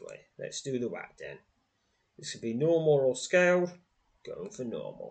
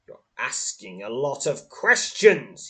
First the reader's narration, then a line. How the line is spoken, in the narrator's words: snarls